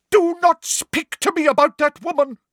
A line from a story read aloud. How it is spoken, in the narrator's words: cried Professor Trelawney